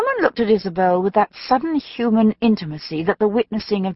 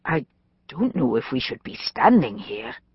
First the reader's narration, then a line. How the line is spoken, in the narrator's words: Isabel muttered, half to Jennifer, half to the other woman